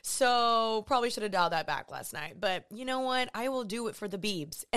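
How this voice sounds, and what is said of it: Low, strained, partly lost voice. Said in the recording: “my voice is lower today, because after going to concerts or whatever, I just lose my voice so unbelievably fast, and it kind of hurts to talk today”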